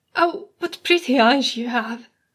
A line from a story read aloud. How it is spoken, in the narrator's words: She sighs, and the sound it makes is like leaves swirling in the wind